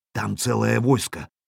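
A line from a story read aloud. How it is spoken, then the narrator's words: Whispered report. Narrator (Russian): шепотом доложил весельчак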